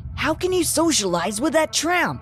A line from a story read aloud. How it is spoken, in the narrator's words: Nick asked angrily